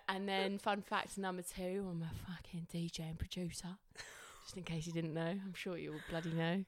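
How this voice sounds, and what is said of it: Fake Cockney accent. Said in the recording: “she's got a fake Cockney accent”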